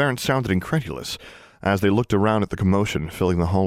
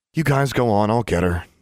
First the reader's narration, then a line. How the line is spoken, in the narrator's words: Alexandra sighed